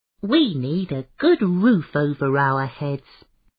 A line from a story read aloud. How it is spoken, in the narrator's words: grumbled the rooster